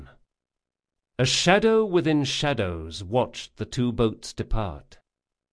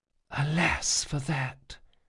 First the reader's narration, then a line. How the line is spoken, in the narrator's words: she whispered